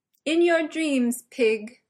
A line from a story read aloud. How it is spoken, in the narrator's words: shouted back, trying to keep her voice from wavering